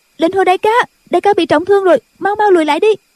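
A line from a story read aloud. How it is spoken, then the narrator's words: Shout. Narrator (Vietnamese): Cô la lên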